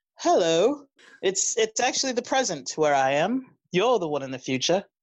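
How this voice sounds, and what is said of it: Put-on British accent. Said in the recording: “You have a British accent”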